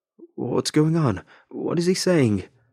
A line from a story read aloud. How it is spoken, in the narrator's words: The man frantically called out